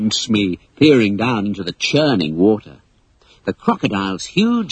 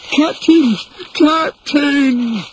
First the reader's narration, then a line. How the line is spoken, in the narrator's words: cried Smee in despair